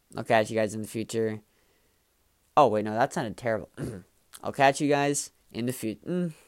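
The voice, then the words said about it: Monotone, flat voice. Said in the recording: “my voice is kind of monotone the entire time”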